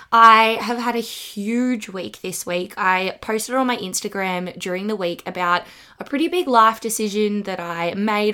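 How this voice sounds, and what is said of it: Husky, hoarse voice. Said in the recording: “apologize for my voice. ... I am going to be husky for the rest of my life because it's just not going anywhere”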